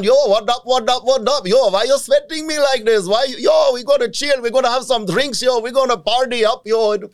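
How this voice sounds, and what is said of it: Imitated Indian gang member accent. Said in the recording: “you also do a lot of accents ... Indian homie gangs”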